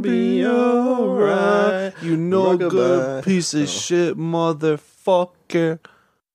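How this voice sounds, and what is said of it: Impression of the Iron Cheek. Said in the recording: “Iron Cheek ... can't do a great impression of him ... that was good. That was spot on.”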